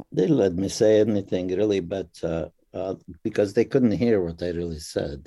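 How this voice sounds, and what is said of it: Foreign accent. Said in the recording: “his accent ... my accent would confuse them ... sometimes I wonder about that with your accent”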